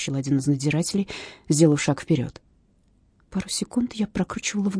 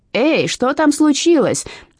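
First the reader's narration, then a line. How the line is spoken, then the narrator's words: Woman screaming. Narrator (Russian): вопила одна из женщин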